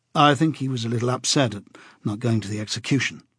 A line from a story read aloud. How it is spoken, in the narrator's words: said Winston